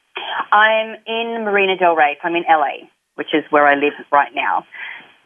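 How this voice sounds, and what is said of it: Australian accent. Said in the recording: “obviously from my accent, you can hear I'm from Australia.”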